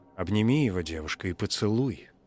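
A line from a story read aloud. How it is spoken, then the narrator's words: Villagers gently coaxing. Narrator (Russian): мягко подбивали ее жители Фаринга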